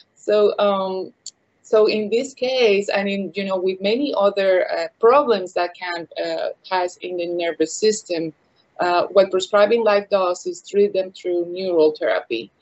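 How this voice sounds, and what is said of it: Noticeable non-Texan accent. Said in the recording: “you have a beautiful accent, but sometimes it's hard for Texans to understand.”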